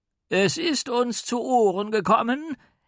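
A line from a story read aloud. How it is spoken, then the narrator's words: Called out. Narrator (German): rief er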